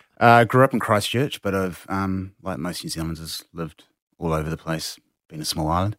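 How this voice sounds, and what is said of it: New Zealand accent. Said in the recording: “I detect a New Zealand accent.”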